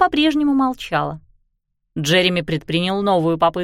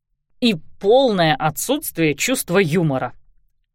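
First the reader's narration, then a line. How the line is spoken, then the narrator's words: Irritated mutter. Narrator (Russian): раздраженно пробормотал он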